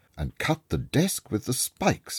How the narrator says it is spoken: cried

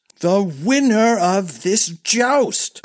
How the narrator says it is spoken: cried Darren angrily

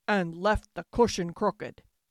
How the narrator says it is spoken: growled the father bear in his great big voice

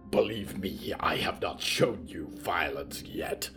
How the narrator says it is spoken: the green man snarled

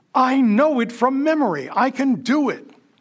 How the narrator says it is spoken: A violist starts waving his bow and yelling

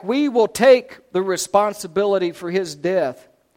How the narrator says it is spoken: all the people yelled back

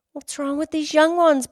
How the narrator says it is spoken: Bobby whined

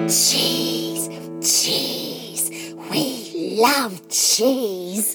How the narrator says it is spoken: hissed the geese

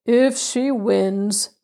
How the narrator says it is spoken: said Uncle Telly gloomily

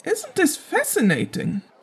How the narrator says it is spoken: Roderick exclaimed, eyes wide in wonder

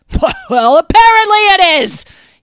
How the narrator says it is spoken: he screamed at the servants

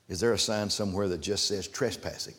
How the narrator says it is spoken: His dad laughed

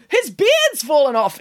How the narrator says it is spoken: exclaimed Nanny Piggins

